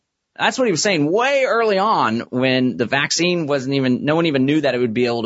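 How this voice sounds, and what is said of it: Usual voice. Nothing is said of it.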